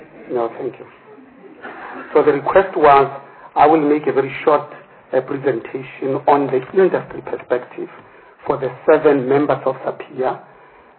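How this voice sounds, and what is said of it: Hoarse, husky voice. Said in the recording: “I myself had a permanent upper respiratory tract infection for which I'm taking antibiotics, so I apologize for my sexy voice”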